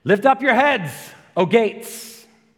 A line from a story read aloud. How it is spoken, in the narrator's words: the general just outside these gates shouts